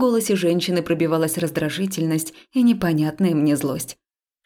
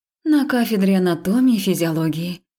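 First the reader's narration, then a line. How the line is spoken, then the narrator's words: Breathed out. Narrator (Russian): выдохнула я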